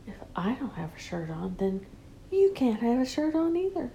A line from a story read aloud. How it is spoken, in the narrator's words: you whisper